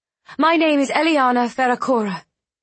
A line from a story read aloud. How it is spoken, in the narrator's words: she called out